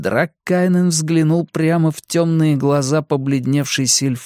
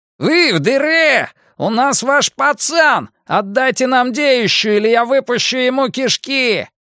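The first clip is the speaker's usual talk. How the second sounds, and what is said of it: Shouting with guttural highlander accent. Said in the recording (Russian): “орал кто-то снаружи, с явным гортанным акцентом горца”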